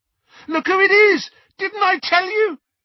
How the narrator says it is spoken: several screams and yells

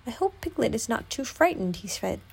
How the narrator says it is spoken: he sighed to himself

